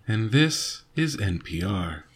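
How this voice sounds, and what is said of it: NPR radio announcer voice. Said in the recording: “Just practicing my NPR voice.”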